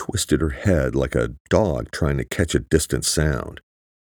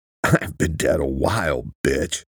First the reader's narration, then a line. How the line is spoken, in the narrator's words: he said, trying to laugh but spitting up blood